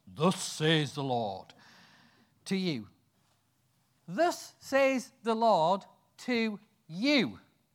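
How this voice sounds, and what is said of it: Deep voice playing God. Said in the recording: “this is God speaking. So I'll put a deep voice on.”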